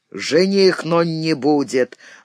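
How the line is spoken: Rude grumble. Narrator (Russian): грубо буркнул Фома

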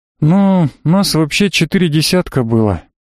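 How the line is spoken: Heavy sigh. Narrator (Russian): тяжело вздохнув, ответил фламандец

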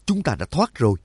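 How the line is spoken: Joyful exclamation. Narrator (Vietnamese): Nhạc Dương mừng rỡ thốt lên

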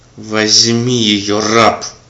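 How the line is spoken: Fierce, angry command. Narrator (Russian): приказал люто и зло

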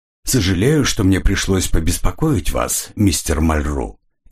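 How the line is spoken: Unctuous tone. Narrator (Russian): елейным тоном произнес Реник

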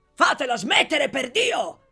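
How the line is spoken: Exasperated shout. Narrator (Italian): gridò esasperato l'onorevole Bottecchiari

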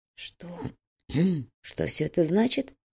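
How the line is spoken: Hoarse question. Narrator (Russian): хрипло спросил Макферсон

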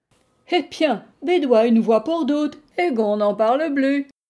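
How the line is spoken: Cheerful woman's voice. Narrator (French): fit-elle gaiement

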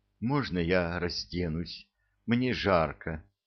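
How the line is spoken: Whispering. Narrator (Russian): шептала она

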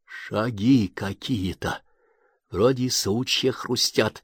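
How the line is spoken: Whisper. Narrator (Russian): прошептал Семушкин

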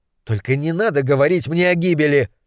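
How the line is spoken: Shout. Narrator (Russian): крикнул я

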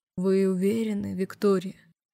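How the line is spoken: Velvety voice. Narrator (Russian): бархатным голосом произнес Балахтин

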